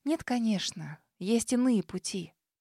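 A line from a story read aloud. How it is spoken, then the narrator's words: Whisper. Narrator (Russian): прошептала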